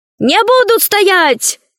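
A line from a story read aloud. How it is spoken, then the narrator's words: Shouting. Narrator (Russian): кричал на берегу Ложкин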